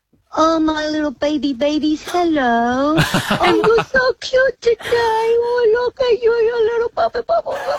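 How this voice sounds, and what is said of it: Baby voice. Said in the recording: “talk to us in a baby voice”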